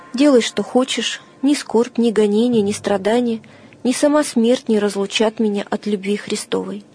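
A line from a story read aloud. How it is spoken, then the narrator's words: Calm. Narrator (Russian): Феодор спокойно отвечал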